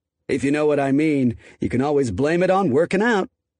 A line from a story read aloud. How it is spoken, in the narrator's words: Then he chuckled and added